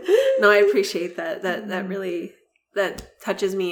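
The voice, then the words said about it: Emotional, holding back tears. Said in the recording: “I'm a little emotional. ... swallow these tears back”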